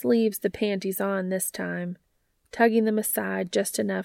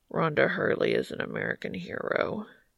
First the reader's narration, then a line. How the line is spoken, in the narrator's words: Cass mumbles into Dean's shoulder